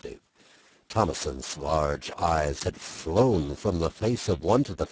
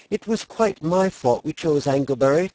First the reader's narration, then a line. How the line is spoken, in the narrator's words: Thomason pleaded